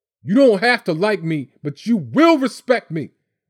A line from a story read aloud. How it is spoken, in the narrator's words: he hollered over Mom's shoulder